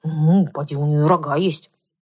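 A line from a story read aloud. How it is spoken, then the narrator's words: Contemptuous snorting mare. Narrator (Russian): Кобыла презрительно фыркнула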